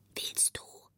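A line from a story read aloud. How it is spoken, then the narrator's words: Very quiet voice. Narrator (German): fragte ganz leise eine Stimme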